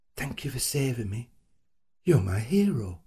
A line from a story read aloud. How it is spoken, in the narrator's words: It were a full, bright smile, her eyes all shining, and she moved closer to me, and then she whispered